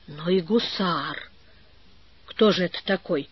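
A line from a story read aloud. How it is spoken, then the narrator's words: Confused muttering. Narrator (Russian): пробормотал растерянный Иван Гермогенович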